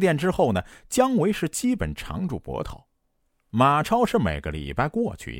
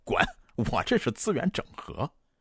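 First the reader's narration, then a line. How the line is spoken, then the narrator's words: Laughing. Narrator (Chinese): 姜维就笑着说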